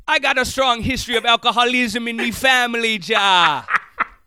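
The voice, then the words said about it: Mixed Irish and Jamaican accent. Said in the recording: “the Irish drinking thing with the Jamaican voice ... You're kind of falling in and out of the Irish ... I think you kind of sound halfway ... you're doing two accents at once.”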